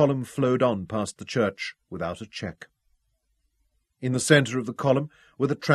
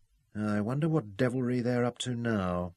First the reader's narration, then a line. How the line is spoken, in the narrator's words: she murmured